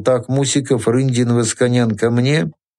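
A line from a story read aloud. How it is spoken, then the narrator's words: Businesslike, almost calm command. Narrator (Russian): Щусь деловито, почти спокойно скомандовал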